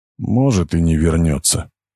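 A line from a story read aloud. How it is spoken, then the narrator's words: Quiet. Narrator (Russian): тихо сказал он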